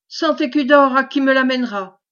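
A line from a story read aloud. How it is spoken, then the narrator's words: Exclaimed. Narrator (French): s'écria-t-il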